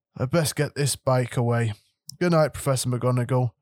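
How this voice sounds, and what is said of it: Muffled voice as Hagrid. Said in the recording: “said Hagrid in a muffled voice.”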